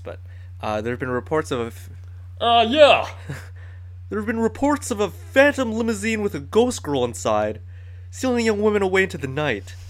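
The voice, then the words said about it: Attempted Patrick Warburton sheriff voice. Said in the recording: “Sheriff Bronson Stone, voiced by my personal favorite Patrick Warburton ... I can't do the voice ... It's the best I can do.”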